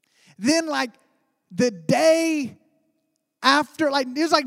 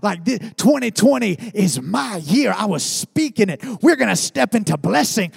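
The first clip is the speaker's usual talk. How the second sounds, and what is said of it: Preacher-style proclaiming voice. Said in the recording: “I had the preacher voice going on”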